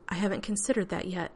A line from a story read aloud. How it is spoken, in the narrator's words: she said, and was privately amazed her voice was so steady